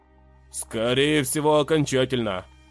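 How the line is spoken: Gloomy. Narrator (Russian): мрачно добавил Рейн

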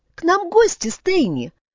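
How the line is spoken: Joyful. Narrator (Russian): радостно произнесла девушка

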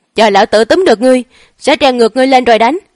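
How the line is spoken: Distant shout. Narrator (Vietnamese): có một người khác hét lên

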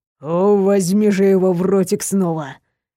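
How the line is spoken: Moan. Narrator (Russian): простонал он

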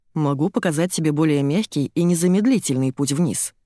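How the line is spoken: Plain. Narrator (Russian): говорит мне Дэн

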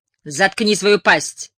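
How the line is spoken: Barking snap. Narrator (Russian): рявкнула Тереза

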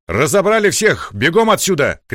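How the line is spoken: Shout. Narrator (Russian): крикнул Николай

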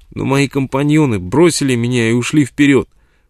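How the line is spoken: Sobbing. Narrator (Russian): всхлипывая, сказал человек

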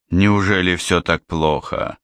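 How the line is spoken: Sad smiling question. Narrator (Russian): спросил Гегурра и улыбнулся грустно

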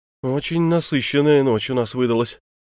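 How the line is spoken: Sighing older man. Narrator (Russian): вздохнул бывший королевский пристав

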